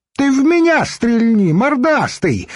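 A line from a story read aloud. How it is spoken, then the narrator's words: Shouted. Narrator (Russian): закричал Йонах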